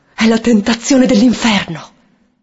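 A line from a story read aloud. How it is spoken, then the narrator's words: Desperate pleading. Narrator (Italian): supplicandolo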